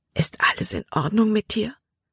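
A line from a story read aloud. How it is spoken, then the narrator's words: Whisper. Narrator (German): flüsterte er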